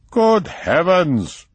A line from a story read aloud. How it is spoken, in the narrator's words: exclaimed von Igelfeld